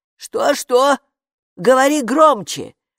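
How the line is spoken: Shouted. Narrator (Russian): прокричала привратница

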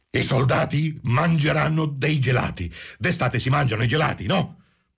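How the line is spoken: Shouting. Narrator (Italian): gridò

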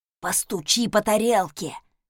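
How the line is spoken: Loud cheerful whisper. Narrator (Russian): громким шепотом предложил усатый, жизнерадостный шеф

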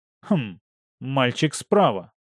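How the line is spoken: Plain. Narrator (Russian): сказал я

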